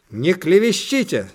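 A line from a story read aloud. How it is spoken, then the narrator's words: Heated shout. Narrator (Russian): запальчиво крикнула мама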